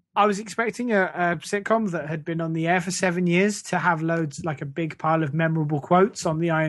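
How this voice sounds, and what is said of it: Usual voice. Nothing is said of it.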